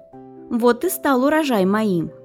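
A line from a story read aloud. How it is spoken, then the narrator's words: Laughing, smug fox. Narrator (Russian): Лиса расхохоталась и сказала, довольная своей хитростью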